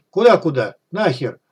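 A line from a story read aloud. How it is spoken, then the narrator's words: Falsetto exclamation, goose-like cackle. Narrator (Russian): воскликнул фальцет и загоготал, словно гусь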